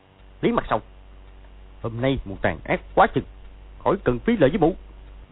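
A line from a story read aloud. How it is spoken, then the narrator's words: Angry shout. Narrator (Vietnamese): Võ Tư Văn quát lên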